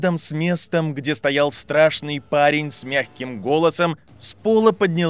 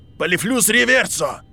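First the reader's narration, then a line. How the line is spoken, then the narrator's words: Roaring young man. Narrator (Russian): проревел парень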